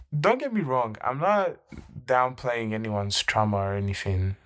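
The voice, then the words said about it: Slipping into a weak British accent. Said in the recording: “this British accent just keeps sneaking in ... a few sneaks of my less than average, actually, British accent.”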